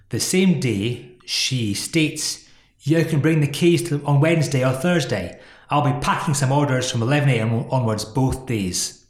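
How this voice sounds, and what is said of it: Poorly done put-on accent. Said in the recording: “My accent's rubbish. It's so bad.”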